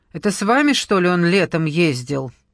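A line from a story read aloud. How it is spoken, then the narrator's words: Nervous, clipped woman's voice. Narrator (Russian): Голос женщины звучал нервозно и отрывисто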